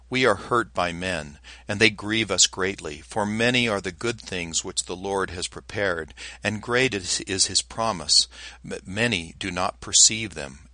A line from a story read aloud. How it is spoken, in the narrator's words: sighing and lamenting, said